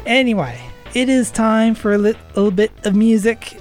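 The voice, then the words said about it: Weird put-on accent. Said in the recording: “I said that in a weird accent”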